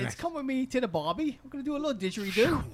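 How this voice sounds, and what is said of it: Weak attempt at Australian accent. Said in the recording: “Does he speak with an Australian accent? ... how good his accent is ... we need an accent, all right, coach”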